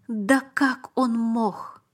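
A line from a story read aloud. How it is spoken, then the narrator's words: Strained, forced out. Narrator (Russian): выдавил я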